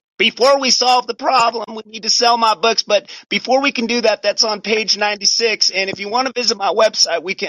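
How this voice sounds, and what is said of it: Lindsey Graham impression. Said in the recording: “people like Lindsey Graham come on television selling his books ... You did his voice really well.”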